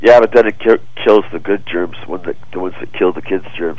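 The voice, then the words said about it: Congested voice from a cold. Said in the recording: “I'm going to blow my nose, I have a cold.”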